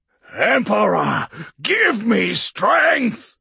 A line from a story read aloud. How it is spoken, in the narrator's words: Castor roared